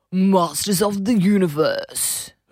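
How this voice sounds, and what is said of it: Imitates another person's voice. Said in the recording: “do my voice? ... Sounds like Ant Middleton meets Paul Hogan”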